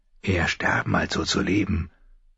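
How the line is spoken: Murmuring. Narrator (German): murmelte der eine, der Namensvetter seines Vaters Eddard

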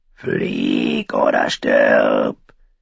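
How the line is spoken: Cawing crow voice. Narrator (German): krächzte die dreäugige Krähe

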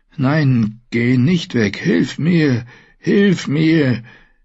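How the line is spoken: Faint moan. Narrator (German): brachte jedoch nur ein leises Stöhnen hervor

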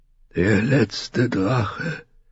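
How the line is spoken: Weak whisper. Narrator (German): flüsterte Ser Joras Stimme schwach

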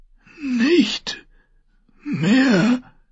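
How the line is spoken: Hoarse croak. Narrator (German): krächzte er heiser

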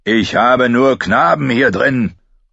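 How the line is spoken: Calling downward. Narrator (German): rief Joren nach unten

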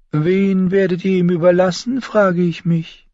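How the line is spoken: Sigh. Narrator (German): Tyrion seufzte

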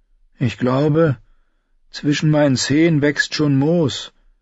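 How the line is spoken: Sad announcement. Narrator (German): verkündete er traurig

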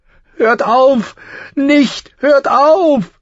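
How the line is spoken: Scream. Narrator (German): schrie Sansa

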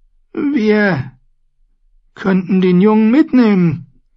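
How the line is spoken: Squeaking. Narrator (German): quiekte

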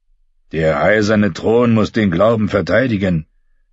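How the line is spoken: Lout growling. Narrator (German): knurrte ein ungeschlachter Flegel

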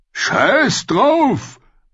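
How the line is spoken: Roared. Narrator (German): brüllte Rorge

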